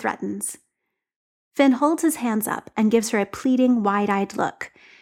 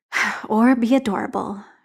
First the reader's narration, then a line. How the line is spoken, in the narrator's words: grumbles